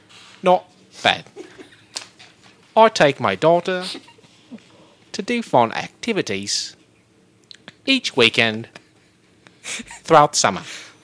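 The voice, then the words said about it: Michael Caine impression. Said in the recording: “I will do my Michael Caine impression”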